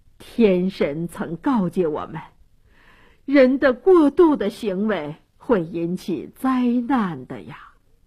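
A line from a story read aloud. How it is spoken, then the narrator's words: Elders sighing, resigned. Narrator (Chinese): 这些长老都叹息地说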